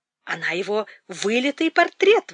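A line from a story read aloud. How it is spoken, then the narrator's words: Exclamation. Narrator (Russian): воскликнула мать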